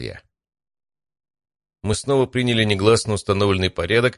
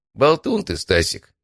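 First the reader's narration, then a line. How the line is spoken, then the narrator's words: Calm. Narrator (Russian): спокойно сказал Матвей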